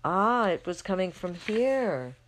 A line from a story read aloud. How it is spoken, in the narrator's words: they exclaim